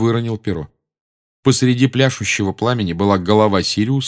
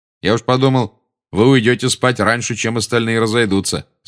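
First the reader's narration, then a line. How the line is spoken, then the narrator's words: Plain. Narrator (Russian): сказал он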